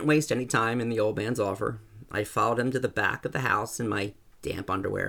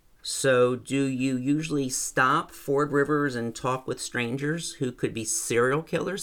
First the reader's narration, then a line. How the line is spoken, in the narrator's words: he asked